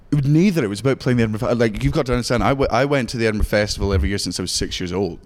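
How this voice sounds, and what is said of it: Scottish accent. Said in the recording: “You could never tell with your accent, but yes, everybody, he's actually from Scotland. ... not putting this on.”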